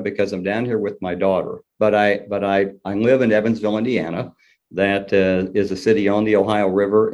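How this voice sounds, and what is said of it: Southern US accent. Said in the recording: “my Southern accent ... I love that Southern accent. It's really cool. ... we call it sort of a dirty accent because it's not as refined as the Eastern Kentucky accent.”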